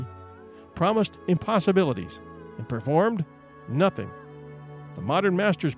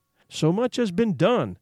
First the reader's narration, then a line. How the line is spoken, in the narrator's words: exclaimed the soul of Frankenstein